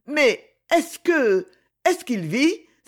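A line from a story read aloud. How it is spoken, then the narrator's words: Exclaiming. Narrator (French): s'écria-t-elle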